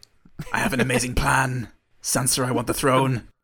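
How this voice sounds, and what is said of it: Impression of a TV character's odd accent. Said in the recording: “doing a bad Peter Baelish impression ... Aidan Gillen's Peter Baelish voice ... I've been honing his crazy, crazy accent”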